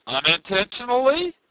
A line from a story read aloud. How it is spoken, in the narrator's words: the stranger replied, raising his voice a little